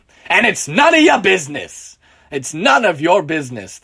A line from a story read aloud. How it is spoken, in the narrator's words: the drunk man shouts in response